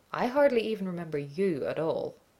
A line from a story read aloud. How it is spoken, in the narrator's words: grinned wickedly and lied